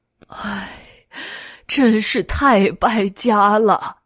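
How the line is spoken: Sighing lament. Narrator (Chinese): 朱波铁唉声叹气

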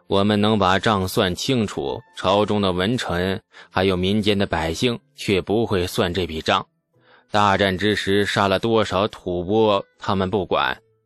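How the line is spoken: Sighing. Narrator (Chinese): 牛进达……叹道

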